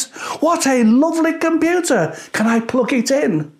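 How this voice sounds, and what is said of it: Cheery shouted little girl voice. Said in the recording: “she shouts in a cheery voice.”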